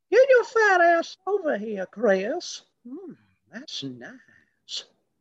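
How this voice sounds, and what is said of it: Impression of a cartoon character's voice. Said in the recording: “that's such a good impression ... it's from Family Guy ... the neighbor from Family Guy”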